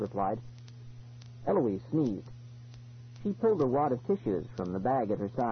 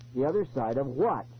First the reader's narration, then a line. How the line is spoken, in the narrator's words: He asked impatiently